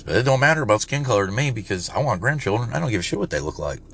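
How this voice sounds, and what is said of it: Put-on Southern redneck voice. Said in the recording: “I'm doing my redneck voice”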